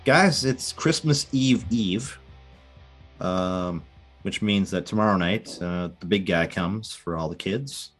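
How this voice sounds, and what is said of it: Congested, stuffed-up voice. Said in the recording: “I'm kind of a little bit stuffed up ... So a little stuffed up. So excuse me if I sound a little weird.”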